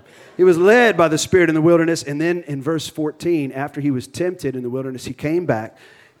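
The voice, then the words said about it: Cajun accent. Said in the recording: “I'm trying to shake my Cajun accent. I'm having a hard time.”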